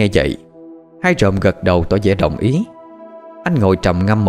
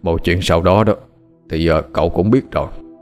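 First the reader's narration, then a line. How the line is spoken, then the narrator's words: Calm, weary sigh. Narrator (Vietnamese): ông Phú bình tĩnh thở dài ngao ngán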